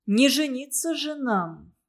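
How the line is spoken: Sighing. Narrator (Russian): вздохнул Костя

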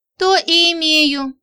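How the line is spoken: Sighing. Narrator (Russian): вздохнула Женька

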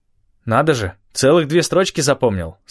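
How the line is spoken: Plain. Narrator (Russian): сказал я

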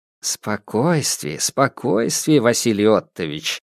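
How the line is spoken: Low voice. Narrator (Russian): вполголоса обратился к нему Ванцовский

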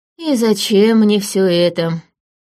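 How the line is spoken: Sighing. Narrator (Russian): вздохнул он

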